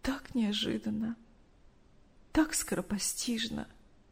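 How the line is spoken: Tearful. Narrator (Russian): Сквозь слезы рассказывала Мария Ивановна

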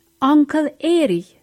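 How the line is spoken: Shouting. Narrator (German): schrie Sam

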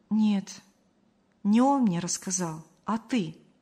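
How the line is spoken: Calm statement. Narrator (Russian): спокойно сообщила Мария

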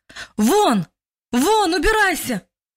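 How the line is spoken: Louder shout, man. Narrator (Russian): уже громче крикнул мужчина во второй раз

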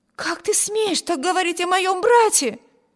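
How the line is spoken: Exclaimed. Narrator (Russian): воскликнула Эми

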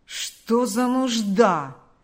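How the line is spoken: Grumbling. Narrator (Russian): проворчал Карп

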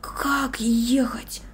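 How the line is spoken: Whispered. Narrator (Russian): прошептал

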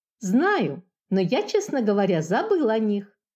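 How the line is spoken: Calmer musing. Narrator (Russian): Уже более спокойно рассуждал Антошка

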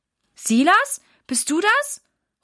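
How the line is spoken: Calling out. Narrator (German): ruft Mama

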